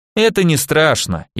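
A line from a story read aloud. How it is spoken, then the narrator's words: Overly cheerful. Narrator (Russian): излишне бодро заявил Михаил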